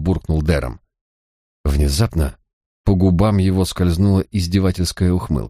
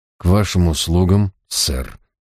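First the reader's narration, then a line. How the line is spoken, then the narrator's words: Weary remark. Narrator (Russian): устало проронил я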